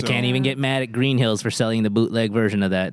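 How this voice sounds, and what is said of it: Put-on Southern accent. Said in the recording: “why'd you say that in a southern accent?”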